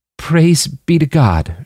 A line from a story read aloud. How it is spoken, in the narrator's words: she choked out